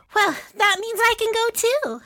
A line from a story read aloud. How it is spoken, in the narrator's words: Adila said happily